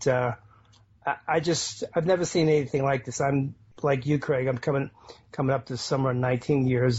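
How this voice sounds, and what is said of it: Boston accent. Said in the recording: “likes your accent... that's a Boston accent... Boston accent”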